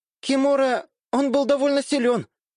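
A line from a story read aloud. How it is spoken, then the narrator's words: Tense, while walking. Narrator (Russian): напряженным голосом на ходу прокомментировала Минами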